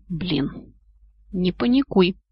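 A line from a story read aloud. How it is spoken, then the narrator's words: Hiss from the left. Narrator (Russian): прошипели где-то слева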